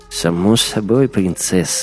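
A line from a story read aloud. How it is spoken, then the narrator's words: Sigh. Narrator (Russian): вздохнул Вима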